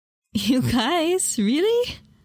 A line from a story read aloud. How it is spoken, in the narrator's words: I asked with a laugh